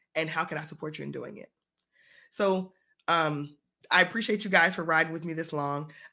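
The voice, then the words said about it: Froggy, hoarse voice. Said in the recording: “my voice is a little bit froggy i'm still feeling a little bit under the weather”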